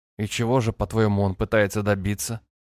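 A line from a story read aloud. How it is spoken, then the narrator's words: Calm inquiry. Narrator (Russian): поинтересовался Фер спокойно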